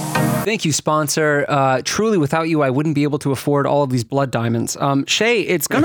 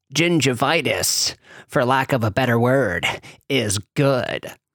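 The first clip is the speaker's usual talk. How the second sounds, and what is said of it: Impression of a movie character's voice. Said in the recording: “I have actually been working on my Gordon Gekko impression”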